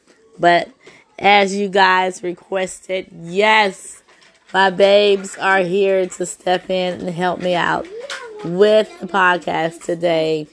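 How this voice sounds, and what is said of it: Hoarse voice. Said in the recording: “Yes, I am still hoarse. Yes, I am still not feeling well.”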